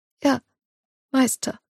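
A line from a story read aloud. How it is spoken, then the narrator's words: Weak squeaky answer. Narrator (German): antwortet sie piepsig mit kraftloser Stimme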